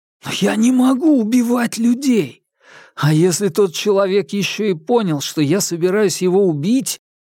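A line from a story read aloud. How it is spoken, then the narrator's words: Helpless exhale. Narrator (Russian): бессильно выдохнул Хуан Цзинфэн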